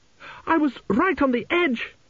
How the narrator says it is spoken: wailed

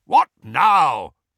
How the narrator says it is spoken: barked Uncle Vernon

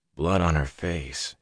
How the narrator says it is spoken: he muttered

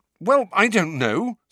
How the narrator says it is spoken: said Harry rather angrily

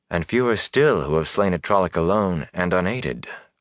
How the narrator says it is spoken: Moraine said wearily

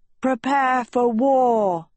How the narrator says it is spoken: Tedros roared

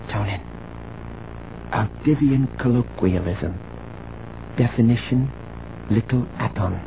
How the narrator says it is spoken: She whispered

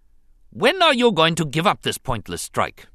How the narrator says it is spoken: he snapped at the governor, to emphasize his displeasure

